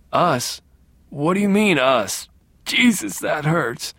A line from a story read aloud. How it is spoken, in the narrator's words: whimpered